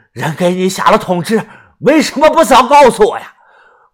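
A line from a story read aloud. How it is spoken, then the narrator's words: Loud, angry. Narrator (Chinese): 宋先生黑着脸大声的说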